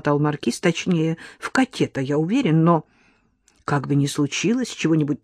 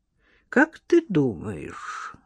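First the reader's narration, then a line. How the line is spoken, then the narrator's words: Thoughtful question. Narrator (Russian): задумчиво спросила Лола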